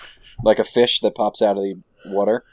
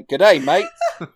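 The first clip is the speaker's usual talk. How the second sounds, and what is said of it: Put-on Australian accent. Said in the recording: “he's got an Australian accent”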